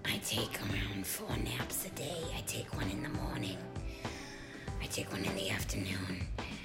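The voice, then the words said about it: Gravelly, tired-sounding voice. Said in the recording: “my voice gets a little bit more gravelly.”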